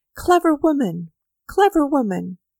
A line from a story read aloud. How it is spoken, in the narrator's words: Avdyich called out